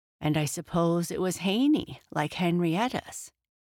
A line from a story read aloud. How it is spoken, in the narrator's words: said Jesse eagerly